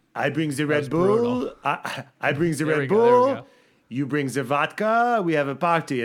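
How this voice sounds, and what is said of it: Bad French accent imitating Pierre Gasly. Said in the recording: “Pierre Gasly ... it's a horrible French accent.”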